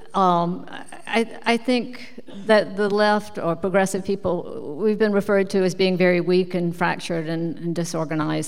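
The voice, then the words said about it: Strong accent, hard to understand. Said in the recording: “it's just my accent, huh? I could just see you look like, what in the world is she saying? Could we have a translator, please?”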